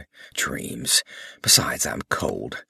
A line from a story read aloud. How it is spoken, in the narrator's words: Thanis muttered